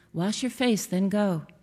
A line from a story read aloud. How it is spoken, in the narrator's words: my mother said